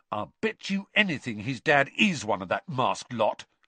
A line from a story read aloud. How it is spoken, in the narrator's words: said Ron hotly